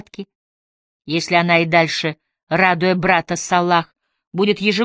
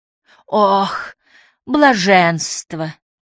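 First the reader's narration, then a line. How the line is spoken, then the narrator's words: Moaning exhale. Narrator (Russian): со стоном выдохнула Юмн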